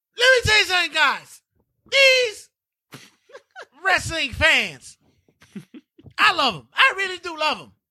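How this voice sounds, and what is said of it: Jim Cornette impression. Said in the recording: “your Jim Cornette impression”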